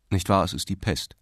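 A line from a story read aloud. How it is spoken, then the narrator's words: Asked coldly. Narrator (German): fragte der Richter kalt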